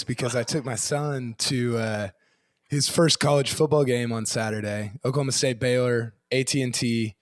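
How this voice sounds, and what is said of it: Hoarse, nearly lost voice. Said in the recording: “I've lost my voice”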